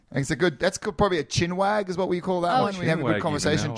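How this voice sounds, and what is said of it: Australian accent. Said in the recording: “My accent might get into the vocabulary or the words announcing it.”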